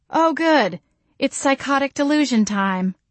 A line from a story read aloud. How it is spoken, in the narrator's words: I moaned